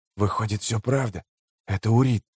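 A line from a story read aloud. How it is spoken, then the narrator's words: Whisper. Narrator (Russian): прошептал чей-то голос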